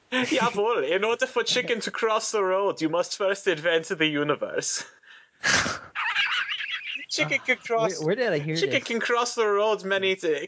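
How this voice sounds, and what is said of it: Poor put-on German accent. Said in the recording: “this is my attempt at doing a German voice, but I am awful at doing accents”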